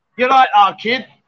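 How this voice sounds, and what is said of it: Put-on Birmingham Brummie accent. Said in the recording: “let me have another accent. ... Birmingham. ... It's a Brummy.”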